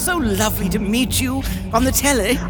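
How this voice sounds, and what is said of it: Attempted British accent. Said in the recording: “Is that an attempt at a British accent?”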